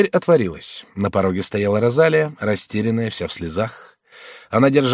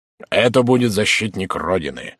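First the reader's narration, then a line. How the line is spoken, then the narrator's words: Serious tone. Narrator (Russian): серьезным тоном прибавил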